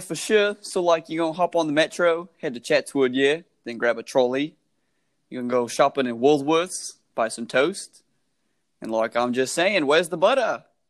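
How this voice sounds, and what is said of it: Imitated Australian accent, quite good. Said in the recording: “your best Australian impression ... Dude, that's actually really good.”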